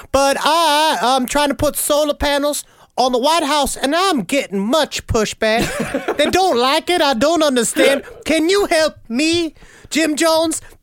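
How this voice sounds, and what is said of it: Imitates another person's voice. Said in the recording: “my Jimmy Carter impression, which is getting worse and worse”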